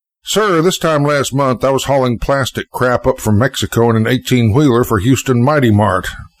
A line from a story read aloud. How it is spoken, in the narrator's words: chuckled the pilot